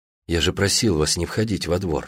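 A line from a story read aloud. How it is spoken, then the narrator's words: Calm. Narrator (Russian): спокойно сказал Гронский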